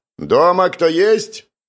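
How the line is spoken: Loud question. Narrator (Russian): громко поинтересовался Павел

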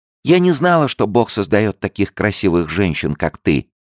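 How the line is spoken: Gentle child's voice. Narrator (Russian): сказала девочка своим нежным голоском

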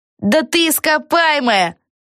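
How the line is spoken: Shouted from below. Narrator (Russian): крикнул кто-то снизу

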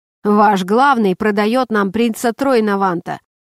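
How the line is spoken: Rough female voice. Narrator (Russian): грубо произнесла Шей

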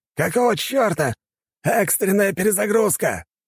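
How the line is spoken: Shouting. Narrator (Russian): кричал командир

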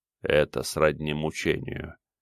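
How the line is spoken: Soft, complimentary. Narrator (Russian): мягко, словно делая комплимент, произнес Горвей

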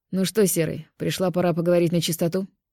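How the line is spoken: Deep bass voice. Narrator (Russian): Пробасил Костя

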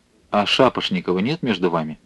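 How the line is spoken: Quiet question. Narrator (Russian): Адъютант полковника негромко спросил

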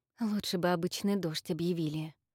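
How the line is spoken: Muttering. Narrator (Russian): пробормотала Инна

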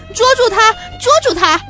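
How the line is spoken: Frantic shouting. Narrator (Chinese): 王爷没命地喊着

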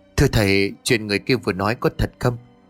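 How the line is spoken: Whisper. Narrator (Vietnamese): Bà Hà thì thầm

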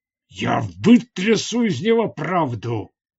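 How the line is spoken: Growl. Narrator (Russian): прорычал Урджан

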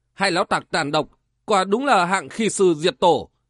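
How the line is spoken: Loud laughing. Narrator (Vietnamese): Triển Mạch ngẩn mặt cười lớn

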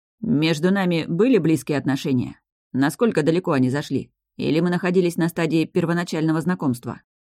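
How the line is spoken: Dry, suppressed question. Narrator (Russian): Еще сильнее подавив все свои невеликие чувства, стратег сухо спросил

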